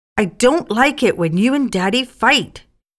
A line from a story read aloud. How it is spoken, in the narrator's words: had shouted